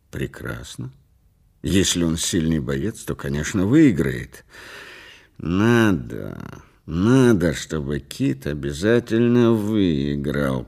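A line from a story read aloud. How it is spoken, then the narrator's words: Strained choked voice. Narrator (Russian): произнес Брандт сдавленным голосом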